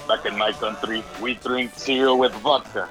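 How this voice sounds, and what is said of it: Put-on Russian accent. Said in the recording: “that's a really good impersonation. ... he has a Russian affiliate”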